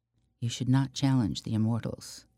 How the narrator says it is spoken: Leandra whispered

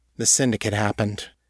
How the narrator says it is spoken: Callie said quietly

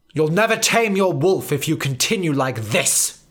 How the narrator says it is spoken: snapped Professor Banner in his head

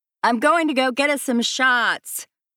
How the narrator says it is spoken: Jessie yells over the thumping bass of the club music

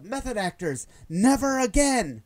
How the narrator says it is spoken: yells out

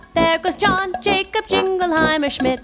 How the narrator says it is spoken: the people always shout

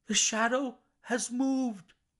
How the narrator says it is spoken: I cried

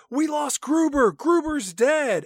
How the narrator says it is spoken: Ben Affleck, he screams out

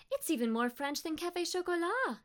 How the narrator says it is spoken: Adrian exclaimed

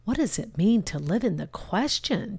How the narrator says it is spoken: she muttered with frustration to herself

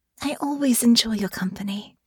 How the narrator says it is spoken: Honor said gently

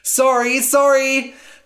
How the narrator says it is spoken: Cass cried

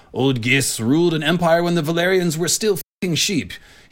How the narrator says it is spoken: he growled at the poor little scribe

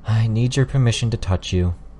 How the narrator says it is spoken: She spoke, sighing the words

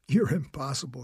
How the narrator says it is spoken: she laughed

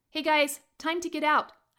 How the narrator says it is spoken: shout

